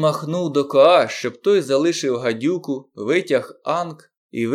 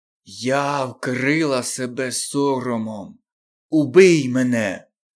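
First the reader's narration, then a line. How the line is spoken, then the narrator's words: Hissed by cobra. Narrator (Ukrainian): прошипіла біла кобра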